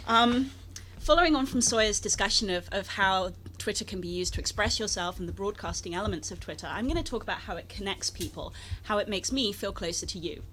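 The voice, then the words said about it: Speaks with a noticeable accent. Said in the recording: “we're going to bring out the big guns into our argument now, which is my accent.”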